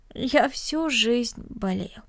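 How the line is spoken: Sad, smiling. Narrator (Russian): печально улыбнулся Денис

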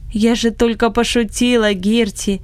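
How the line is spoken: Laughing. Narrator (Russian): засмеялась хозяйка

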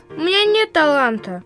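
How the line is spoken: Sad, bewildered boy. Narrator (Russian): печально сказал совершенно растерянный мальчик

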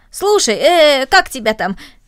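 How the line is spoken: Cheerful suggestion. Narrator (Russian): Рома весело предложил

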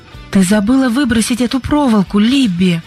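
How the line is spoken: Exclaimed. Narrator (Russian): воскликнула Сьюзен

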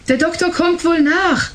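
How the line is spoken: Calling out. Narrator (German): rief sie ihrer Mutter zu

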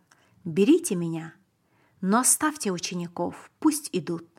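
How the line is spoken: Calm and loud. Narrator (Russian): Иисус сказал спокойно и громко

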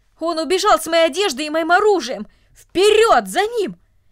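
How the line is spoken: Loud furious shouting. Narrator (Russian): Солдат, у которого исчезла одежда, громко кричал от ярости

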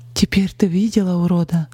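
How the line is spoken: Trembling voice. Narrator (Russian): дрогнувшим голосом спросила Полина

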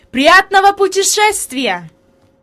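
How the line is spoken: Shouted. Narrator (Russian): господин Сесман крикнул

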